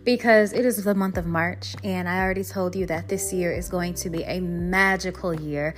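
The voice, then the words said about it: Excited, upbeat voice. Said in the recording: “I'm excited, if you can't tell by my voice”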